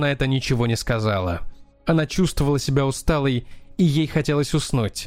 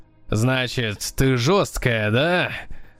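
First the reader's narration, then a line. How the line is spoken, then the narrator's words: Loud laughter. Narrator (Russian): Водитель захохотал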